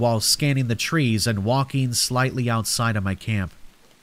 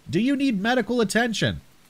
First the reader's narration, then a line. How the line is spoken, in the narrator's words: I called out